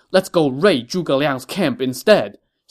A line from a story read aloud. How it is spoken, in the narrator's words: Xing Daorong shouted